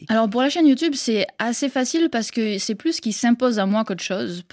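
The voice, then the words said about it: Slight mixed southern French-Québécois accent. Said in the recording (French): “d'où mon petit accent un petit peu mélangé ... Un petit peu mélangé entre le sud de la France et le Québec”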